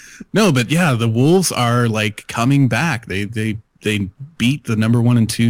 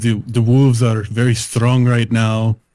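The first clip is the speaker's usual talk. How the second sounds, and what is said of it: Put-on Russian accent. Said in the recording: “Could you just redo that with a Russian accent?”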